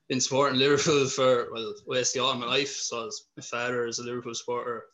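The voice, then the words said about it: Irish accent. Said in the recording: “I'm obviously from Ireland, if you haven't got the accent.”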